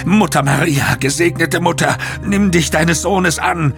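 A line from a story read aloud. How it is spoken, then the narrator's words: Screaming in pain. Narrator (German): Er schrie vor Schmerz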